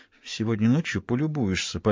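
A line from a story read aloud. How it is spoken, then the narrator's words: Playful whisper. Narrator (Russian): пообещала Сакс игривым шепотом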